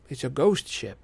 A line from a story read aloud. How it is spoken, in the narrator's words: I murmured